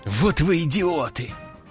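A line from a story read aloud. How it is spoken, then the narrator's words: Hissing. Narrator (Russian): прошипел он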